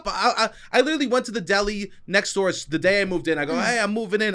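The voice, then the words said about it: New York accent. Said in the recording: “I also have a New York accent”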